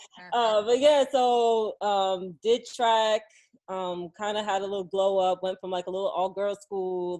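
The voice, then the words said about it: New York accent. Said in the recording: “New York born, Jersey raised ... I could tell in the accent ... My girlfriend doesn't appreciate my accent”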